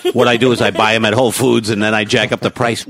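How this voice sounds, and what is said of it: Imitates another person's voice. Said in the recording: “How come you took over my voice? ... you're doing my voice back to yourself.”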